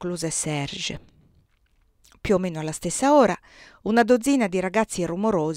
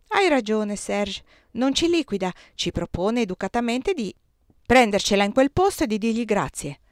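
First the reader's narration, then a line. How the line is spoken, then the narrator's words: Exclaimed. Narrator (Italian): esclamò Chiri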